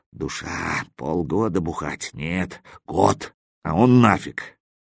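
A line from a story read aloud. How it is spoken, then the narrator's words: Grunting mutter. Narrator (Russian): Крякнув, бормоча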